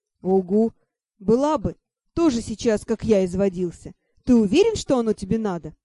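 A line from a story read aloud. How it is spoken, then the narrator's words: Snorting. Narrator (Russian): Хмыкнула я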